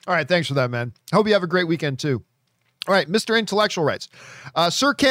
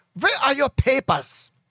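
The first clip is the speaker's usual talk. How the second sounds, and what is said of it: Poor put-on German accent. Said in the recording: “I can't do a German Nazi imitation ... That was just terrible, terrible impersonation.”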